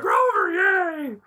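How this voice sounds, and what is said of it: Poor Muppet character voice impression. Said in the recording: “Worst Grover impersonation ever. I can do it better when I actually shout.”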